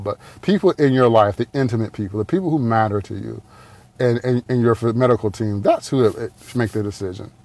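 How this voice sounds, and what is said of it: Detroit accent. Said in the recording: “butchering it with my Detroit accent”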